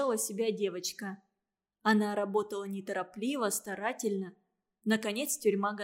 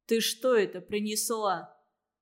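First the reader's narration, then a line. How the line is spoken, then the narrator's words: Menacing question. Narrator (Russian): грозно спросил он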